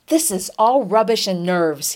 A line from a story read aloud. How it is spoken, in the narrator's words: he exclaimed at length, springing with sudden energy from his chair